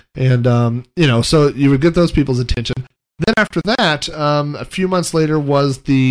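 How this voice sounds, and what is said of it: Usual voice. Nothing is said of it.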